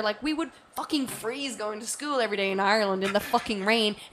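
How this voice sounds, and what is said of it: Strong Irish accent. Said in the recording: “my accent just got stronger ... I love when you talk Ireland and your accent comes out”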